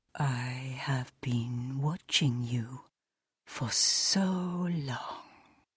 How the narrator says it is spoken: he whispered, his voice a ghost on the air

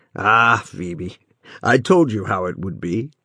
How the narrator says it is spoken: said the artist with a half-melancholy laugh

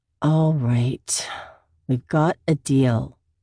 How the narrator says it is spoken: she sighs and says

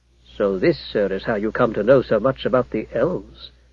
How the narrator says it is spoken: said Alfred in a low voice

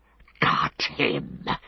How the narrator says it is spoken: hissed Gollum in his ear

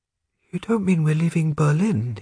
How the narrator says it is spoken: he asked, gasping for air as he got the words out

